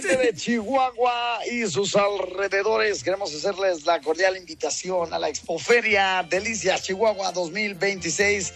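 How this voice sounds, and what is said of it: Put-on radio announcer voice. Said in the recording (Spanish): “me pongo en voz de locutor”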